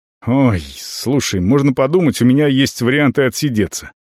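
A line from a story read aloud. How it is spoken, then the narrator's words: Irritated answer. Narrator (Russian): раздраженно отвечает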